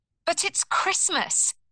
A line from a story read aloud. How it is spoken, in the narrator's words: Eve Pilkins cried